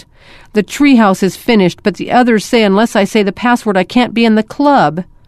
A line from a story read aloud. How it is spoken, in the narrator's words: Jordan hesitated, then blurted out